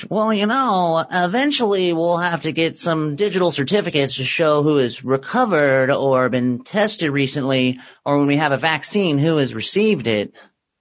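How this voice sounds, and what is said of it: Imitates another person's voice. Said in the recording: “I'm going to do my impression.”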